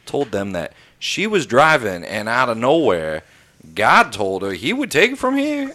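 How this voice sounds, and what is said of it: Exaggerated Indiana accent. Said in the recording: “You're taking liberties with that accent ... it's Indiana”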